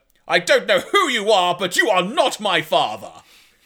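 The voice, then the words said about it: Put-on stereotypical English accent. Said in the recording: “I'm going to try and do the accent ... I'm not going to do it justice ... in her incredibly stereotypical English accent”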